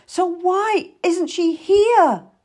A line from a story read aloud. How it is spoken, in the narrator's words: I wailed